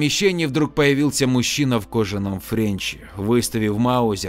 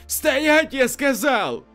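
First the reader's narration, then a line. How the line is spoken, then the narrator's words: Frightened shout. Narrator (Russian): Матрос испуганно выкрикнул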